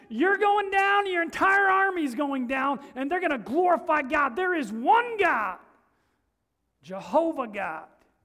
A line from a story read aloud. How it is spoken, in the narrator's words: David shouted right back at him